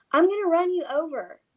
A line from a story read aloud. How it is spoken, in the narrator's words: eventually yells to the kid